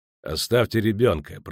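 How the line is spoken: Words through gritted teeth. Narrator (Russian): процедил Геральт

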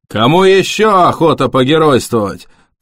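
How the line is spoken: Booming over loudspeakers. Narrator (Russian): прогремел из динамиков голос ковбоя Мальборо

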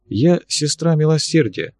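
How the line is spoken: Quiet, expressionless. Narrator (Russian): так же тихо и почти без всякого выражения ответила Ксения

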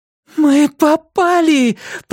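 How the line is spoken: Moaning. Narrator (Russian): простонала Эмма

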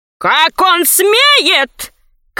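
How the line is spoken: Crowd of nobles shouting. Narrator (Russian): кричали толстые и тонкие, низенькие величавые вельможи Крины

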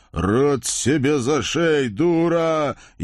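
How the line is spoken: Near-hysterical moan. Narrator (Russian): едва ли уже не на грани истерики простонал господин исправник

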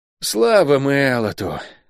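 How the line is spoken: Relieved exhale. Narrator (Russian): выдохнул Лук

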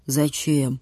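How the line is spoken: Deep bass voice. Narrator (Russian): пробасил Витюня

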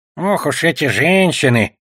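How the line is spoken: Grumbled, goblin. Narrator (Russian): проворчал гоблин

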